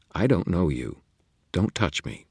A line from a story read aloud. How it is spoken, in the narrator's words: she said calmly